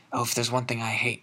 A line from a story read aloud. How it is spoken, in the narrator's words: he muttered, more to himself than to Harry